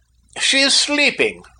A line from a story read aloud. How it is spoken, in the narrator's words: I cried